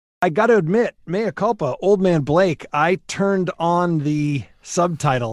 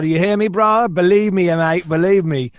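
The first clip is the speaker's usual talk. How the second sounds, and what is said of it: Bad put-on British accent. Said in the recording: “my horrible British accent, hybrid accent ... Mary Poppins time for sure”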